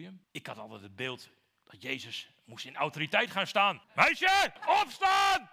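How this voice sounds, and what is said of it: Usual voice. Nothing is said of it.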